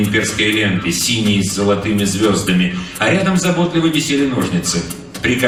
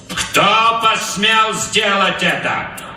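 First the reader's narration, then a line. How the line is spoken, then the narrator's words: Loud question. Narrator (Russian): громко спросил Капрал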